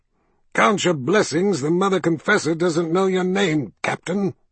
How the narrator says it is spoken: he snapped

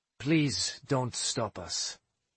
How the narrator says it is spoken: Pike said calmly

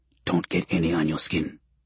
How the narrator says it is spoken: he mutters

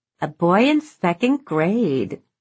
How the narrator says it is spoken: Truman said and cackled

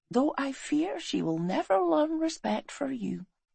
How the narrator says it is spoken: she whispered

